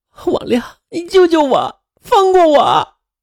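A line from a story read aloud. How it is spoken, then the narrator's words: Wailing, grieving and frightened. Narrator (Chinese): 周元又悲又愤又害怕，他哇哇的哭着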